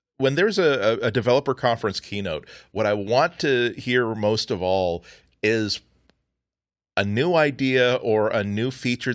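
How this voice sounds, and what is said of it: Excited, enthusiastic voice. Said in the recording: “as you can probably tell by my voice, I'm really excited about this”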